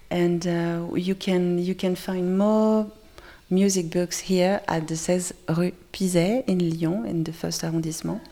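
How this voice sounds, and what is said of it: Attractive French-accented English. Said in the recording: “She had quite a sexy accent ... do the French actually really speak French? ... in that really quite attractive accent.”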